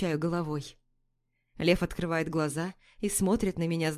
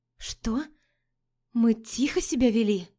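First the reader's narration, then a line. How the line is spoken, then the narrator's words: Hoarse retort. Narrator (Russian): Хрипло парирую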